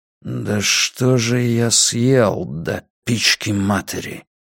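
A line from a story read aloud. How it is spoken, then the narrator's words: Muttering. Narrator (Russian): пробормотал Драккайнен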